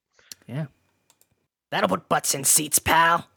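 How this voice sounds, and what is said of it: Imitates another person's voice. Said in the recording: “my Vince McMahon impression ... It's pretty good ... 7 out of 10 ... Too much water”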